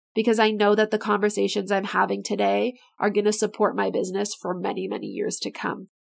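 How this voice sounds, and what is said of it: Raspy, strained voice. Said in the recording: “My voice is getting raspy. I've literally been talking for 3 hours without stopping”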